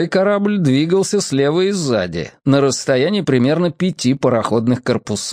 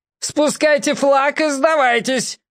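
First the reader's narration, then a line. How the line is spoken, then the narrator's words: Admiral yelling again. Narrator (Russian): опять завопил адмирал Дудка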